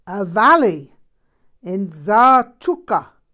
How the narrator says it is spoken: he roared

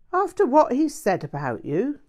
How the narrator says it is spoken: Graham said indignantly

